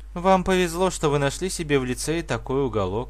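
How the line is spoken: Sighing. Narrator (Russian): вздохнула она

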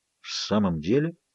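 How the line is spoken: Polite skeptical mumble. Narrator (Russian): вежливо пробормотал он, втайне оставшись при своем мнении

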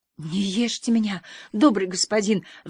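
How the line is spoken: Wretched pleading. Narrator (Russian): взмолился несчастный

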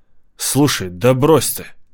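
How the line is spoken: Impulsive exclamation. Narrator (Russian): импульсивно воскликнул я

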